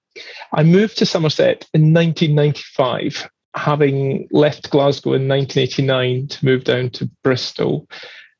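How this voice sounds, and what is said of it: Non-local, not Somerset accent. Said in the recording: “you haven't got an exactly Somerset accent”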